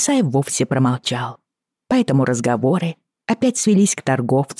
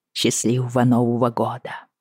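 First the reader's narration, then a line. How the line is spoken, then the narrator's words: Quiet. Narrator (Russian): тихо сказала я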